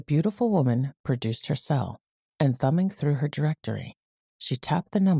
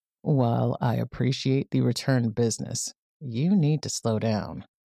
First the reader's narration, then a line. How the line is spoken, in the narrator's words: said